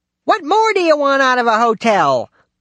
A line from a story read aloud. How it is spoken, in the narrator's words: shouted